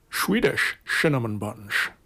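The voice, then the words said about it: Sean Connery impression. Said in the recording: “In a Sean Connery accent”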